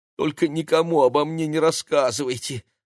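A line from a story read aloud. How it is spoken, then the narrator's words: Pleading. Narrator (Russian): взмолился мэр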